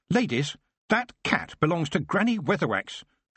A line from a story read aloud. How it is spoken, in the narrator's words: she said sharply